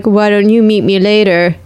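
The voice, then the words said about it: Imitates a reality-show bachelor's voice. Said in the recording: “pretty good impression of uh, ... what The Bachelor likely”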